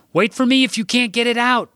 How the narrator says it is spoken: Jack shouted after me

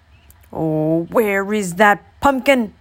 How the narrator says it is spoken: croaked the old man

